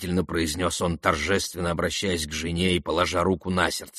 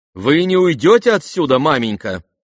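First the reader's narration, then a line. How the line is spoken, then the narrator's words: Loud question. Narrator (Russian): громко спросила Варя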